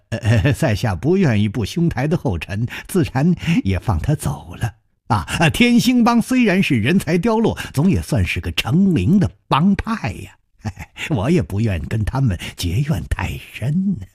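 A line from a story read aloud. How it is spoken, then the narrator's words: Gentle smiling. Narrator (Chinese): 冷秋魂微微的笑着说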